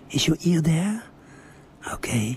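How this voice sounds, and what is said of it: Very slow, soft speech. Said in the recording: “I'm talking very slowly now. It's very soft.”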